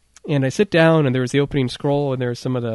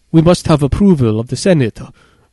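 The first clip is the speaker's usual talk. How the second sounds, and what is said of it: Stereotypical put-on Asian accent. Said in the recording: “the most stereotypical, to my ears, Asian accent I've heard in my life”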